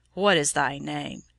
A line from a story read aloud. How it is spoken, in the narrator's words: Dacian looked in anger, asked her roughly